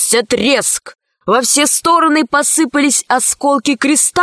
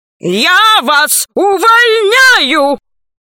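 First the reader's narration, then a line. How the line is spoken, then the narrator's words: Shouting. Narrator (Russian): закричал Громозека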